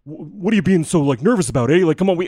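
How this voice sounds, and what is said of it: Put-on Canadian accent, not great. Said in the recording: “I don't do a great Canadian”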